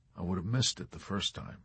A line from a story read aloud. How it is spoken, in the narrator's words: Yossarian replied softly, his face lowered